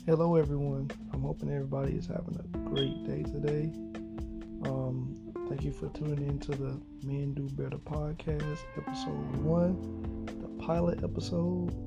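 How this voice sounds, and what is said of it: Southern US accent. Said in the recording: “excuse my voice. You know, I'm from Florida, so, you know, I have that southern slang, that southern, you know, tone.”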